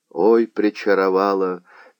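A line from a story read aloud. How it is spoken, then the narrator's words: Sad reply. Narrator (Russian): печально ответил казак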